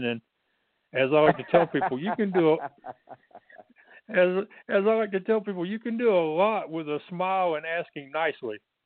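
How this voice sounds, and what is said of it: Texas accent. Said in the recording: “I'm from Texas, so I got the accent.”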